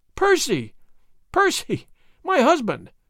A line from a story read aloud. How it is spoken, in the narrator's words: she gasped, faint with the fullness of her joy